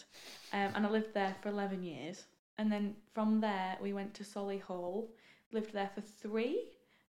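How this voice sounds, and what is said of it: Funny Rotherham accent. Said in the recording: “Rotherham, which is why I've got this funny accent.”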